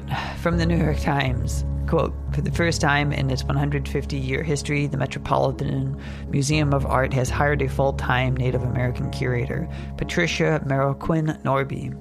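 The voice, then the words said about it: Congested, stuffed-up nasal voice. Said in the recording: “I sound kind of nasally today because my nose is a little stuffed up... I'm nasal-less, because my nose is stuffed up”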